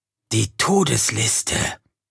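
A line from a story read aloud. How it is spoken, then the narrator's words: Whispering. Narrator (German): verdeutlichte er mit einem Flüstern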